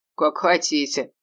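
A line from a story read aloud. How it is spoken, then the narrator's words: Laughing. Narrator (Russian): рассмеялся он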